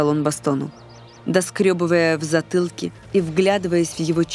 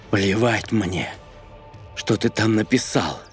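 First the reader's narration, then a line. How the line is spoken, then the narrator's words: Grim curt remark. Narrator (Russian): Мрачно бросил Бастон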